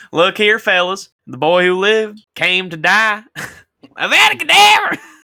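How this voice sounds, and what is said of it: Shouted put-on Southern accent. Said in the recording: “he just screams at the top of his lungs in his best Southern accent”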